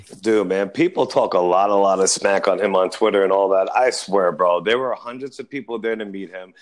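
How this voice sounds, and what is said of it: New York accent. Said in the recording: “He has a New York accent.”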